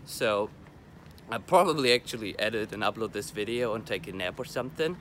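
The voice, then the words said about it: Sick-sounding voice. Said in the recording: “I don't know if you're able to tell from my voice, but I'm sick”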